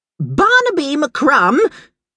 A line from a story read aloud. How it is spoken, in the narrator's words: She roared